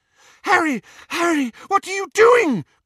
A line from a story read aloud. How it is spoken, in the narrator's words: cried Hermione